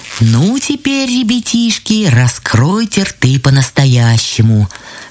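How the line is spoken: Plain. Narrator (Russian): сказали грибы

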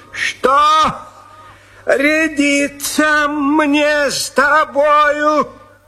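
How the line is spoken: Shout. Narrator (Russian): закричал

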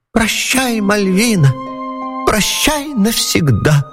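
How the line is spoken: Whiny squeak, little man. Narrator (Russian): Плаксивым голосом пропищал человечек

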